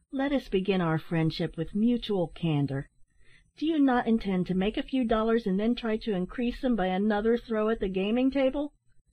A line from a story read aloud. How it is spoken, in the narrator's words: said Ned, while he looked earnestly into his face